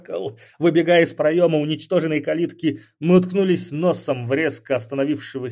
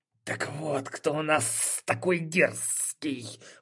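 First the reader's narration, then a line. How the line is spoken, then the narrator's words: Hiss. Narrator (Russian): прошипел он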